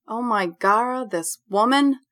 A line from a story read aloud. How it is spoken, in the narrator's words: I groan